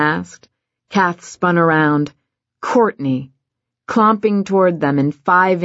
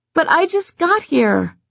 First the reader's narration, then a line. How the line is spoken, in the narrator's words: Courtney whined